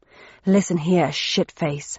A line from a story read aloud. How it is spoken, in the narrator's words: said Thursday 1-4 with a snarl